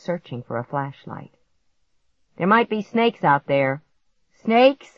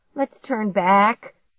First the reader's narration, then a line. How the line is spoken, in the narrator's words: Clark pleaded